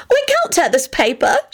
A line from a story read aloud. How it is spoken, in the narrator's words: she said excitedly